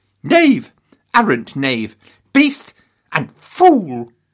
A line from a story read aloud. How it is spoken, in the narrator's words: Henry thundered